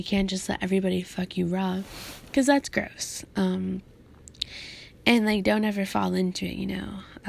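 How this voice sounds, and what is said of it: Slightly raspy voice. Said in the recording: “My voice a little raspy.”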